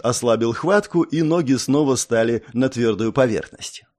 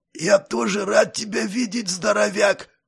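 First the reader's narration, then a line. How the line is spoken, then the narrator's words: Hoarse rasp. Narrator (Russian): прохрипел я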